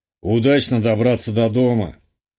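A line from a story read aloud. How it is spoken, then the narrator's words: Bartender's amused snort. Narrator (Russian): хмыкнул бармен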